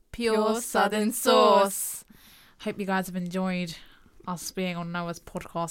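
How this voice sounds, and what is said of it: Put-on accent. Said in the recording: “I always go into this accent. ... It's actually annoying now.”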